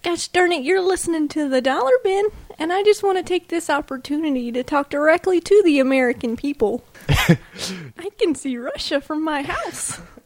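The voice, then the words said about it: Sarah Palin impression. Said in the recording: “my Sarah Palin impersonation ... doing that voice”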